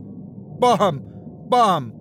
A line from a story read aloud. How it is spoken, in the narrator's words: he yelled at the top of his lungs